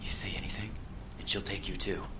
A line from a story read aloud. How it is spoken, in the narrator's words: She whispered to me